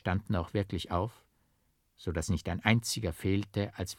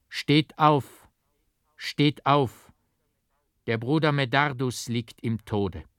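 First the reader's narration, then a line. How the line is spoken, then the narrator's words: Loud call. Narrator (German): mit lauter Stimme rief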